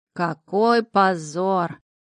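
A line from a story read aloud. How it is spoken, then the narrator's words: Drawling little devil. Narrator (Russian): протянул чертяка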